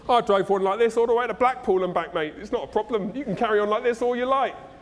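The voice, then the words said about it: Put-on Cockney accent. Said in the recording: “when I talk about somebody dodgy, I go to Cockney accent”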